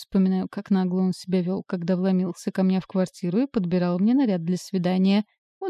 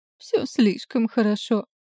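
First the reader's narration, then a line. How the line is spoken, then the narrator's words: Sobbing. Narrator (Russian): всхлипываю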